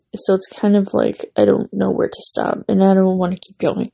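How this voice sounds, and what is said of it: Hoarse, fading voice. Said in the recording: “losing my voice, so you can hear me like talking, but I'm losing my voice.”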